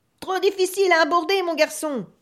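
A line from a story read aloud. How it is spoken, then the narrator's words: Captain thundering. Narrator (French): tonna le capitaine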